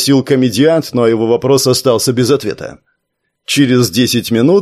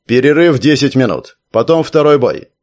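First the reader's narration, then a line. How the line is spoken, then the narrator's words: Loud guard announcement. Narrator (Russian): один из охранников громко сказал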